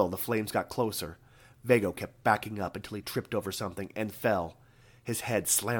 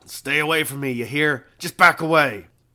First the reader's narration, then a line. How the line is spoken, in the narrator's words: growled